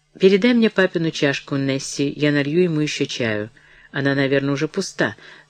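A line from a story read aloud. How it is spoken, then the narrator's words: Conciliatory tone. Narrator (Russian): начала миссис Броуди примирительным тоном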